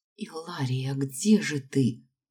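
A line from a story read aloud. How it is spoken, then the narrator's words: Whisper. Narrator (Russian): прошептала я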